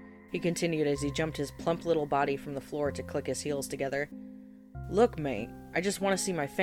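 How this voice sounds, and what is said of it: Usual voice. Nothing is said of it.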